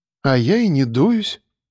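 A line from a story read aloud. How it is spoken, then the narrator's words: Calm. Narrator (Russian): спокойно сказала Яна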